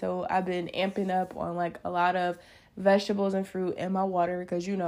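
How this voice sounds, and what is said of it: Sick-sounding voice. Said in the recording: “if you could tell it in my voice, I'm kind of getting over a bad, bad, bad bug”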